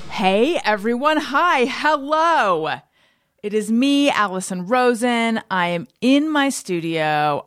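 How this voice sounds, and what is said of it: Excited yelling. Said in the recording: “I'm yelling a little bit because that's how excited I am”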